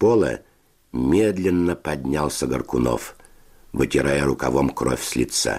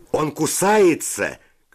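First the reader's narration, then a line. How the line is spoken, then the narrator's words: Shout. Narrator (Russian): крикнул кто-то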